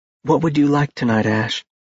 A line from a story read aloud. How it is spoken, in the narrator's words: she asked in a soft voice